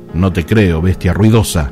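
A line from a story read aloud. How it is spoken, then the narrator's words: Shouting. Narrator (Spanish): gritó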